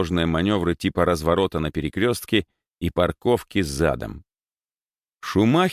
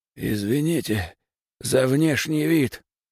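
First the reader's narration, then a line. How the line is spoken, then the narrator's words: Hoarse. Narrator (Russian): сипло сказал он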